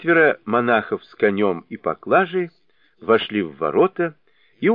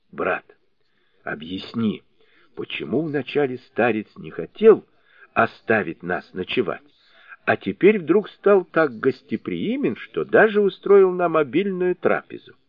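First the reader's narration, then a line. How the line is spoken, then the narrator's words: Quiet question. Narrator (Russian): тихо спросил его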